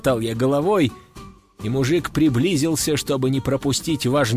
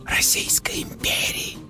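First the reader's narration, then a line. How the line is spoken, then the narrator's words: Excited whisper in ear. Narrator (Russian): восторженно шепнул ему на ухо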